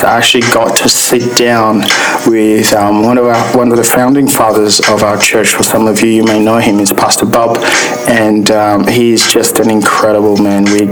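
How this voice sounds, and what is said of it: Rough voice from sore throat. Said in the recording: “excuse my voice, ... I've actually got a sore throat at the moment”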